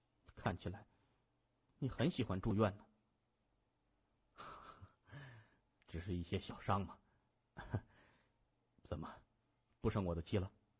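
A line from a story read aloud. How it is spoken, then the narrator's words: Discontented mutter. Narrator (Chinese): 他又不满的嘟囔着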